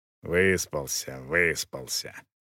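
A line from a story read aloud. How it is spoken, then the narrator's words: Muttering. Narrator (Russian): бурчал Роха и повторил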